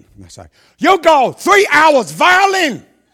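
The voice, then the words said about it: Put-on Chinese accent. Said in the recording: “Maybe the accent needs a bit more Mandarin in it”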